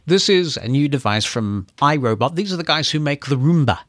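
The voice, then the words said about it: Speaker's own regional accent. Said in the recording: “because of my accent, I'll make that clear that it's T-E-R-R-A”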